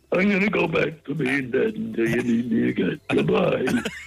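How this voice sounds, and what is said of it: Imitates another person's voice, poorly. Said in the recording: “It's Rodney Dangerfield. The ghost of Rodney Dangerfield. ... It's not even a good Rodney Dangerfield impression.”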